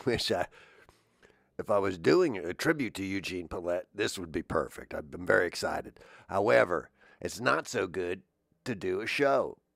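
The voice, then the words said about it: Sick, oddly altered voice. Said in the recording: “I just came back from London, where I got inspired and COVID. So my voice is a little weird.”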